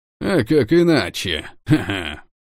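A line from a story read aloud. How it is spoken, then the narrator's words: Short laugh. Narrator (Russian): хохотнул Берг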